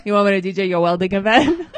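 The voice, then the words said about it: Put-on Puerto Rican accent. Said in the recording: “You do the Puerto Rican accent way better than me.”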